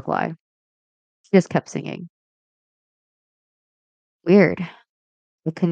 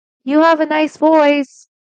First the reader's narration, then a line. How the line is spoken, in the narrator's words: I shout out